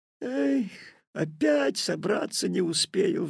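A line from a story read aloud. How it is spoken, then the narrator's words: Sigh. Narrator (Russian): вздохнул Петя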